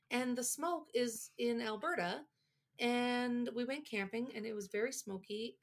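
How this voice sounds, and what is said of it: Raspy, stuffed-up congested voice. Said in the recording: “Do I sound like a smoker? ... Yeah. ... now I'm all stuffed up”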